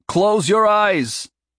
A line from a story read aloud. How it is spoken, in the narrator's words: Hiram shouted over the rushing air